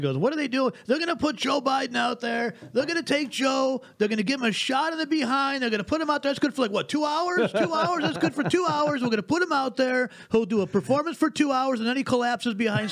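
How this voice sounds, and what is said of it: Donald Trump impression. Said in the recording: “my best impression, my dress Trump impression.”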